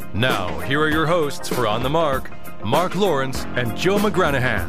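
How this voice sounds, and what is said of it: Deep announcer voice. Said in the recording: “deep voice man”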